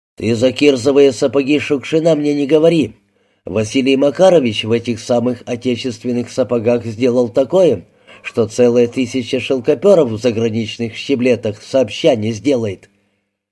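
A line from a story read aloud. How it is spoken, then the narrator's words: Deep bass voice. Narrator (Russian): Похожий на докера книголюб басил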